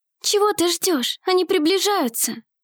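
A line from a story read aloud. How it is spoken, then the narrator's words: Anxious whisper. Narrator (Russian): взволнованно прошептала Елеоль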